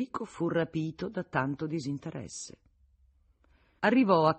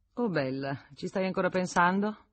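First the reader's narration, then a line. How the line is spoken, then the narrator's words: Absent-minded tone. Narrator (Italian): rispose Federico con tono svagato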